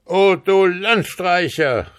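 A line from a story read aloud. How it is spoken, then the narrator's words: Devil shouting. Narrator (German): rief der Oberteufel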